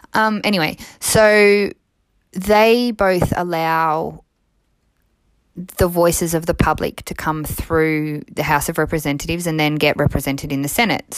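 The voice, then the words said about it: Australian accent. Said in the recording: “my voice is Australian”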